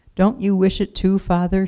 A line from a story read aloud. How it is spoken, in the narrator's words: she asked